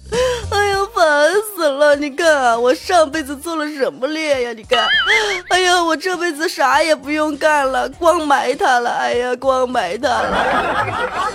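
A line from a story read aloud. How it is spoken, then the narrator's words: Crying while scolding. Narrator (Chinese): 蚂蚁就一边哭一边骂道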